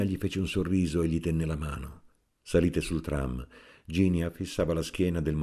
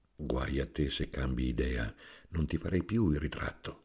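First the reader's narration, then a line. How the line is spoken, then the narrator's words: Said softly. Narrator (Italian): Guido le disse piano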